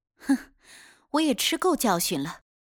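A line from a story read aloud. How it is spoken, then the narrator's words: Self-mocking laugh. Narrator (Chinese): 威农自嘲一笑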